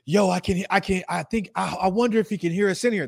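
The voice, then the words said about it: Loud voice passed off as whisper. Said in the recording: “I don't have a low version of my vocal volume ... this is my whisper ... That's my whisper ... I don't have an inside voice”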